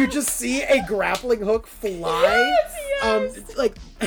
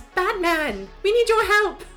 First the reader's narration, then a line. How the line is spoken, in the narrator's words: Elizabeth yells